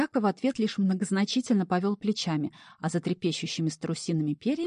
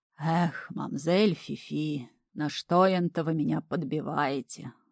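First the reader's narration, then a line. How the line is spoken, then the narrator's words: Sigh, then sly. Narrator (Russian): вздохнул Хухлик и лукаво добавил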